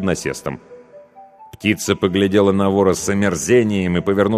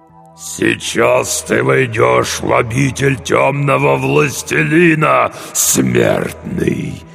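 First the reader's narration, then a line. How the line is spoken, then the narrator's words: Straining demonic growl. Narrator (Russian): прорычал демон с натугой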